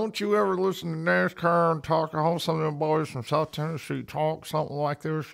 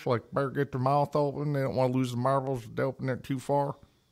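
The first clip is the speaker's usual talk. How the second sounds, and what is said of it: Weak put-on Southern US accent. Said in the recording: “your Southern accent is the worst I've ever heard ... your Southern accent ... That's your best one?”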